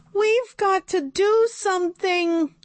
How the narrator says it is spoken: Emily shouted

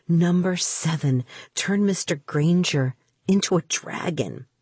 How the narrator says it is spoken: I'd whispered

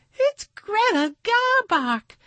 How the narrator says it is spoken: cried the poodle

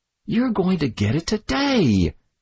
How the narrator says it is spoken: shrieked, unable to restrain himself

